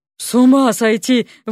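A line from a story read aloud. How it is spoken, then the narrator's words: Breathless exclamation. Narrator (Russian): выдохнул Алёша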